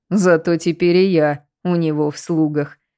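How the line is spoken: Grumbling monk. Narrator (Russian): проворчал монах

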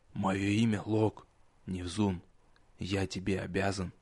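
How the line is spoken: Quiet. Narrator (Russian): тихо сказал

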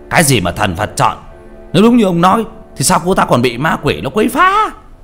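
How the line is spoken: Angry. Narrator (Vietnamese): Vị pháp sư giọng giận dữ

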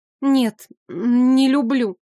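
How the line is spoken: Stammering. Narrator (Russian): запинаясь, сказала Мия

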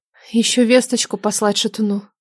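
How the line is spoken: Gentle reminder, sighing. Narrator (Russian): мягко напомнила Нелада и снова вздохнула

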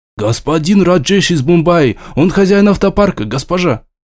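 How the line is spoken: Frightened rapid chatter. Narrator (Russian): испуганно затараторил тот

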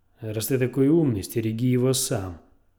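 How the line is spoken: Snapping retort. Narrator (Russian): огрызнулась Игрит

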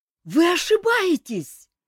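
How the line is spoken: Terrified shout. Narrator (Russian): закричал серж, судорожно дергая связанными руками и теперь уже с ужасом

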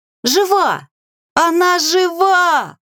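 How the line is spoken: Young witches shouting. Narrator (Russian): Закричали ведьмочки

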